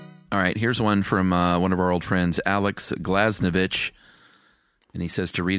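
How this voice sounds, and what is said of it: Usual voice. Nothing is said of it.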